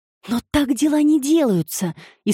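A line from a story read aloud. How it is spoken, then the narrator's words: Frightened objection. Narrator (Russian): испуганно возразила Эми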